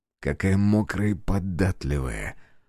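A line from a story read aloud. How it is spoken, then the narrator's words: Whispered. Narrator (Russian): шепнул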